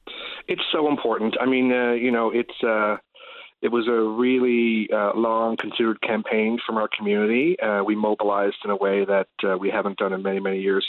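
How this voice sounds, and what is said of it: Slightly rough voice. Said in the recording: “I had a little bit of cold this morning, so excuse my voice”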